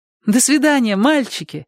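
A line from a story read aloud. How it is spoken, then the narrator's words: Cheerful young woman. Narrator (Russian): радостно сказала девушка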